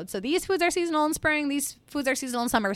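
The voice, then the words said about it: Very fast speech. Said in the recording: “i'm talking so fast today ... you might have to listen to this on halftime”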